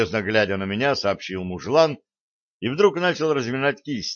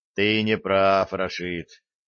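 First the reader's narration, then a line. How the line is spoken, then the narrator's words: Lazy protest. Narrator (Russian): лениво запротестовал я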